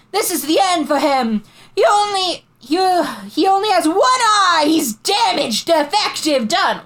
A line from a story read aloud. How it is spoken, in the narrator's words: she cried in Tookie's face